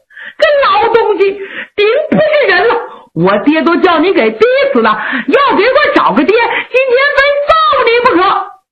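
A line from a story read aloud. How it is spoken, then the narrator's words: Crying, shouting, cursing. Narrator (Chinese): 杨宗勉是连哭带喊带骂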